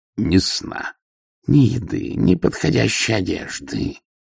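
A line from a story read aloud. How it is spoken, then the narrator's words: Growled. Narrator (Russian): прорычала Ангва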